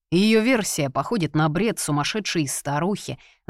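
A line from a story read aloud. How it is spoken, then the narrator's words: Angry snort, big man. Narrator (Russian): зло хмыкнул здоровяк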